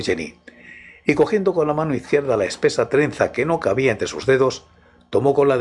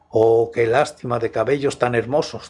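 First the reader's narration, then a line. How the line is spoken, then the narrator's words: Plain. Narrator (Spanish): dijo Luis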